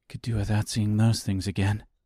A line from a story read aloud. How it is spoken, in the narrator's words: she muttered in disgust